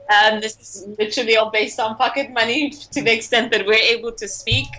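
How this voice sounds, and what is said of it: American accent. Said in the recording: “you've got an American accent.”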